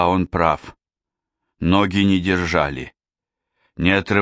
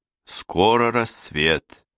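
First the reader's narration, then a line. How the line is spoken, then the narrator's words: Sad. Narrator (Russian): печально произнес Фултон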